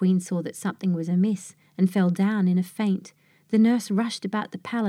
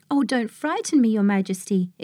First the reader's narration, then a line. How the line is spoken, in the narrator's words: exclaimed the nurse